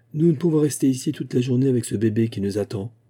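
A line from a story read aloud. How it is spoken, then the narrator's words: Plain. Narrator (French): dit-il à l'Ashka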